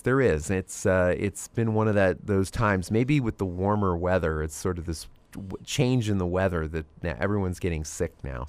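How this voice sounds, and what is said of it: Voice affected by a cold. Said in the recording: “as you can tell in my voice, a little bit of a cold”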